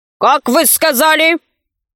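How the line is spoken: Unpleasant, grumpy exclamation. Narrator (Russian): Воскликнул он неприятным сварливым голосом

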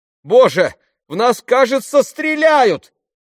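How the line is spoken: Shouting. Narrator (Russian): закричала Фиби

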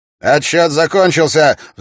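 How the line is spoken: Roaring megaphone. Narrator (Russian): взревел мегафон

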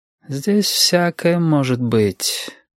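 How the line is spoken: Sighing. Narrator (Russian): вздохнул Юрик

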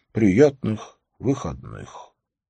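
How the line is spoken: Mutter. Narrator (Russian): пробормотал

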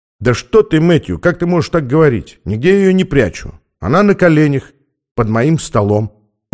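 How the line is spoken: Calm. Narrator (Russian): ответил спокойно Стэнли

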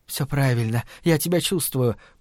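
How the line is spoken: Whisper. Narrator (Russian): прошептала она

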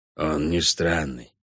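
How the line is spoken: Quiet reply. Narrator (Russian): так же тихо ответил Кобальд

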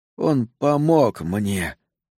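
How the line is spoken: Hoarse rasp. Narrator (Russian): прохрипел Сол

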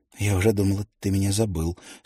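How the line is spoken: Plain. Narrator (Russian): сказала она

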